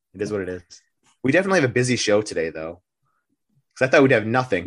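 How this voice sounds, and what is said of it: Sick-sounding voice. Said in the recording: “I'm feeling a little sick... Weeks of sickness. You probably can hear it in my voice.”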